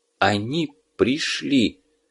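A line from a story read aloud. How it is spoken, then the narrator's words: Whispered. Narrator (Russian): прошептал Гельмут, завороженно глядя на пламя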